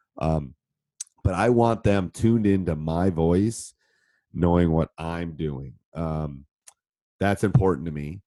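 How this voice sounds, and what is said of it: Deeper, congested voice. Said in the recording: “deep voice. ... it's a little deeper than normal because I have a cold.”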